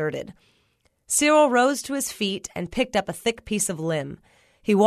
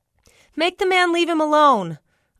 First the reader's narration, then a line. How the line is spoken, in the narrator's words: hollered after him